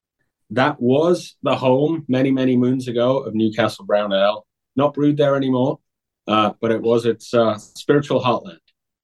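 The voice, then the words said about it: Fairly neutral northern English accent. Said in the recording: “Really cool British accent ... is not the traditional British accent ... my accent is probably very, very neutral these days, not quite neutral ... I'm originally from Newcastle, England”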